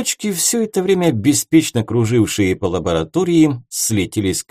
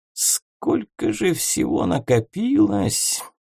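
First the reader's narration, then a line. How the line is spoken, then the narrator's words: Sighing. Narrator (Russian): Волшебник еще раз вздохнул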